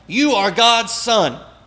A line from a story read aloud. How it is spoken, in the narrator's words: the evil spirits shout out